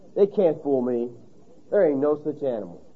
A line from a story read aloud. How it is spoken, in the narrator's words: with an air of disgust, and he muttered